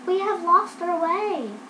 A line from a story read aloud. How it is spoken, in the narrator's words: the girls called out